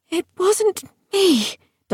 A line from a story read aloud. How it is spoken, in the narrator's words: Dulcinea wheezed in no small alarm